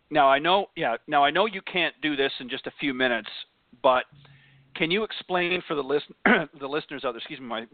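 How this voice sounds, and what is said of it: Slightly hoarse voice. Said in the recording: “my voice is going a little bit hoarse”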